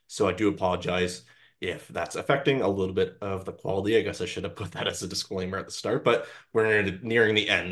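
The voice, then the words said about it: Slightly croaky voice. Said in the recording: “My voice is a little bit croaky. Been sick for several days now”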